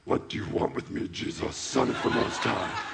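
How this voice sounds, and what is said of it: Put-on demon voice. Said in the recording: “I'm going to use my demon voice”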